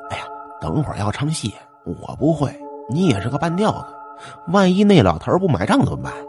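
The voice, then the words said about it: Quiet, hushed speaking. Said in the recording (Chinese): “小声说”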